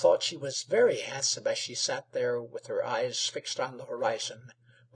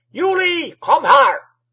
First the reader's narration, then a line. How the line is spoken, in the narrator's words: roared the old man from the well